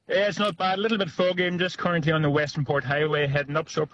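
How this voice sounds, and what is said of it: Noticeable accent. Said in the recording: “Love your accent.”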